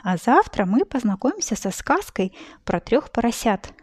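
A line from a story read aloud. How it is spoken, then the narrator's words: Plain. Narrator (Russian): сказала она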